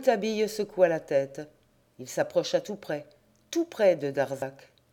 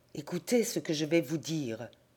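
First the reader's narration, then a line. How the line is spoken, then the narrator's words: Low voice. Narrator (French): fit-il à voix basse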